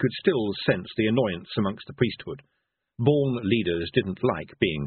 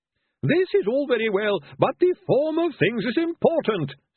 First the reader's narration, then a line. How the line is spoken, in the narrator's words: snapped a priest